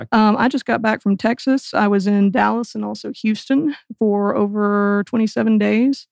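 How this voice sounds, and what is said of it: Slight Southern US twang. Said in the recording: “That's where the accent's coming from. I heard a little bit ... of Texas, too. ... I heard a little twang there. ... We've been calling it the Texabama accent”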